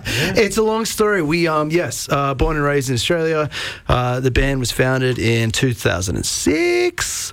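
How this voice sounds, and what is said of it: Australian accent. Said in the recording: “the Australian accent”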